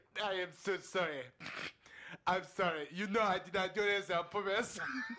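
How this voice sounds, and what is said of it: Imitates a man's foreign accent. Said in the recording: “he had an accent ... The way I just did that accent was how he sounded.”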